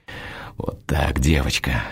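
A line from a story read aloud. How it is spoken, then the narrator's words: Hoarse whisper. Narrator (Russian): хрипло шепчу я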